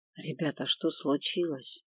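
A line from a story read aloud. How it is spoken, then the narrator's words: Secretive whispered question. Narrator (Russian): шепотом поинтересовался он так, чтобы никто не услышал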